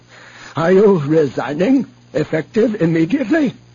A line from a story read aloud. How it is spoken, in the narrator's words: Admiral Kreefe snapped off a quick comment in Bothan